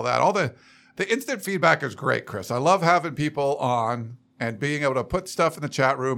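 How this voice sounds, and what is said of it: Rough, slightly hoarse voice. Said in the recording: “my voice sounds a little rough right now, which it kind of does”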